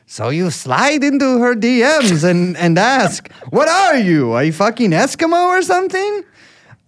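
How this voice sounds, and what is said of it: Impression of Adam Friedland's voice. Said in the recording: “I'll do his real voice.”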